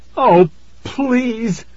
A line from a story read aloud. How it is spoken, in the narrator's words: cried, staring in horror